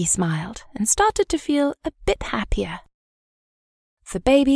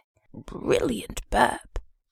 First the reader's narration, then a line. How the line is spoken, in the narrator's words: he whispered in her ear